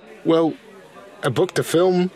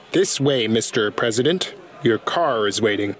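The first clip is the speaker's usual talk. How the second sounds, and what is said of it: Put-on American Midwestern accent. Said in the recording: “Let's hear your accent ... It's like you're from the Midwest.”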